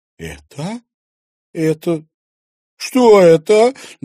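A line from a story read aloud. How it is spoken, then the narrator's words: Trembling voice question. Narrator (Russian): дрогнувшим голосом спросила Луиза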